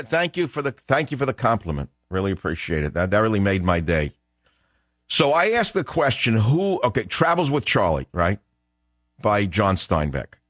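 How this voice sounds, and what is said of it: New York accent. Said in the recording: “I grew up in New York, and I love your accent ... just my accent”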